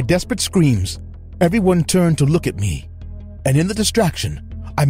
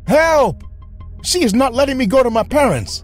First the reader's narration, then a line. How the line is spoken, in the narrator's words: struggled and then shouted